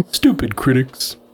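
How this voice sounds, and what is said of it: Cartoon character voice impression. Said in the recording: “in a Homer Simpson voice ... I'm not good at voices.”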